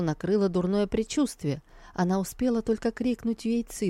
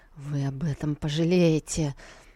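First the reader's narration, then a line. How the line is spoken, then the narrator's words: Cold, through gritted teeth. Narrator (Russian): она холодно процедила сквозь зубы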